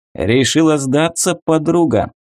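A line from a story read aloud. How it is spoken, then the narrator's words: Short chuckle. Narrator (Russian): хохотнул капитан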